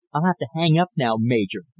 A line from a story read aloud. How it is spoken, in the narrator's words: Don said quietly